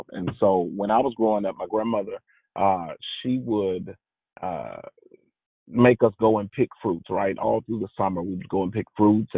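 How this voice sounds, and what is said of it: Southern American accent. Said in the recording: “if you can't tell by my voice, I'm from the South.”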